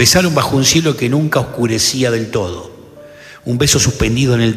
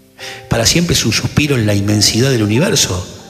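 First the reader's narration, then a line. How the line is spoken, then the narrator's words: Plain. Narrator (Spanish): respondió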